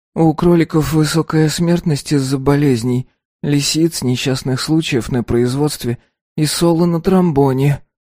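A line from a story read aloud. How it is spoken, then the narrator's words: Very quiet. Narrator (Russian): сказала Салли, которая говорила очень тихо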